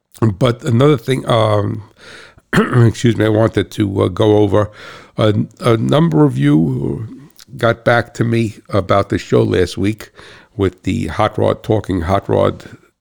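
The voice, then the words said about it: Regional accent. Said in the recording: “this guy over here from Cat Swamp Road with a funny accent”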